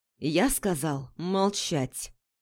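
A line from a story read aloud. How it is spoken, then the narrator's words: Quiet, forceful speech. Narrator (Russian): Пижон произнес это тихо, но с таким напором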